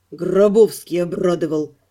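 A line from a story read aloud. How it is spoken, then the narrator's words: Through gritted teeth. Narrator (Russian): процедил Анхайлик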